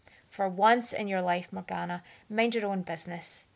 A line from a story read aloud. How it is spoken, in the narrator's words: he snapped furiously